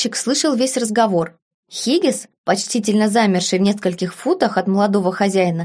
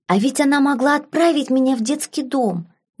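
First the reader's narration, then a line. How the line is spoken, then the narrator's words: Cheerful whisper. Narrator (Russian): весело прошептал Ярвуд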